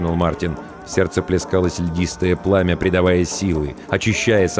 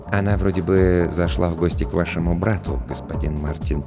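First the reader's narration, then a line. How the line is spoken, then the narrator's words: Quiet reply. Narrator (Russian): тихо ответил Роджер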